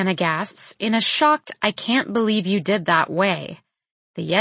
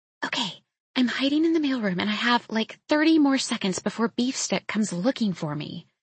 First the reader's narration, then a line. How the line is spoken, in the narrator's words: she whispers conspiratorially